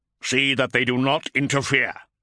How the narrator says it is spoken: snarled Corferon from the long-wave vox

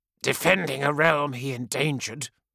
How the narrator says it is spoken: she snarled, and the fury in her voice shook him to his core

